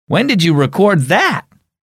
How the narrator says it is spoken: Theodore laughed

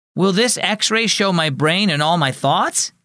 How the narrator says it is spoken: he blurted out

